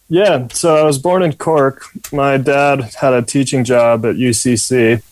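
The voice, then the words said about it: American accent. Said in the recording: “clearly by your accent, we can tell that you have an American accent.”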